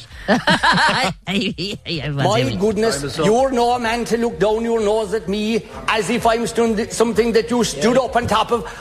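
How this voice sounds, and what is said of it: Rolling Kerry Irish accent. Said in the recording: “I actually really like his accent. ... Because it rolls. You know, it's lovely. ... Kerry style with Michael Healy Ray”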